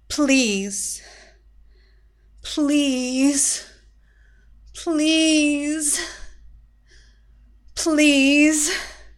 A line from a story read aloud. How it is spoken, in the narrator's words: Zinda moaned, but all struggle had gone